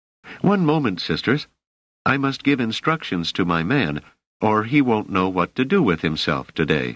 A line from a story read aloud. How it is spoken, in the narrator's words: Doris, who said in a cheerful, businesslike tone of voice